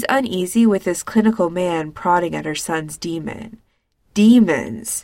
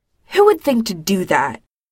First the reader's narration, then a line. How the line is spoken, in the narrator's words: Winona snaps